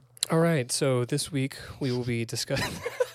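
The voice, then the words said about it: Public radio announcer voice. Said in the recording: “NPR voice ... It was pretty good.”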